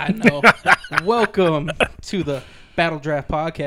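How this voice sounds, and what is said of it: Usual voice. Nothing is said of it.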